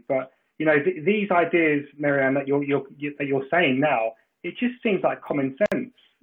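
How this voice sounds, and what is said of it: Non-American accent. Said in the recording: “with my accent, I'm not from the US”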